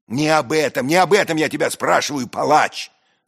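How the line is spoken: Furious trembling shout. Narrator (Russian): закричал я, трясясь от злобы

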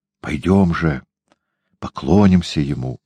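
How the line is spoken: Witch's whisper. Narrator (Russian): шепнула ведьма

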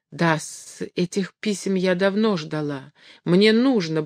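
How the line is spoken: Pleading mumble. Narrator (Russian): бормотала она, глядя умоляющими глазами на Граблина, как будто просила его помощи

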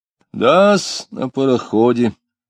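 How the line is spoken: Confirming again, sighing. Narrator (Russian): снова подтвердил Радеев и вздохнул

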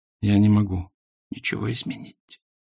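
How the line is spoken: Whisper. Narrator (Russian): прошептала она

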